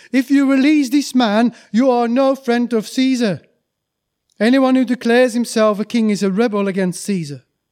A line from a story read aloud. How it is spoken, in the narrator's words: the Jewish leaders shouted